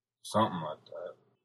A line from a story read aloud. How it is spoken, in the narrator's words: muttered